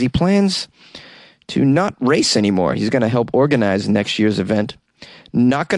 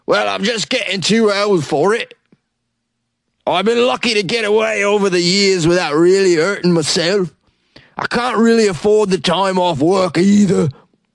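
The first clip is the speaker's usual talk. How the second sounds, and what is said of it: Monty Python peasant accent. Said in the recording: “That was my Monty Python peasant accent. ... That was spot on.”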